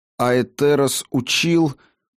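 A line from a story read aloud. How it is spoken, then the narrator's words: Forced out with difficulty. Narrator (Russian): кое-как выдавил Гильтан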